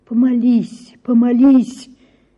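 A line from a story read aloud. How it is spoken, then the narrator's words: Pleading, begging voice. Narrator (Russian): говорил он каким-то просящим, умоляющим голосом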